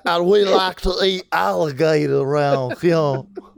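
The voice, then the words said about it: Put-on Savannah, Georgia accent. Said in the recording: “I can do Savannah. ... What's Savannah sound like to you? ... Savannah, Georgia.”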